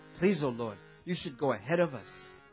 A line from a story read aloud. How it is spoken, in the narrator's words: Mukunda quickly replied